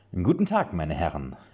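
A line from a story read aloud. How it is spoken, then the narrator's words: Lilting voice, abruptly dying. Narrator (German): jodelte er beinahe mit schwungvoller Stimme, bis sie abrupt erstarb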